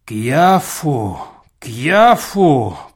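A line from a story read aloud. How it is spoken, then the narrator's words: Moaning. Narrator (Russian): простонал Чертопханов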